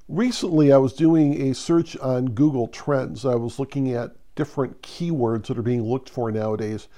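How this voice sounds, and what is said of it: Congested, stuffed-up voice. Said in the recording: “my voice sounds a little stuffed up. I am recovering from a head cold.”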